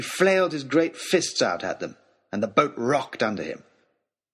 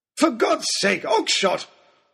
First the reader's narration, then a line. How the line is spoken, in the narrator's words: bellowed Lord Daunt